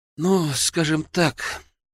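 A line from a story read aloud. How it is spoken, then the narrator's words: Sighing. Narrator (Russian): вздохнул Арсений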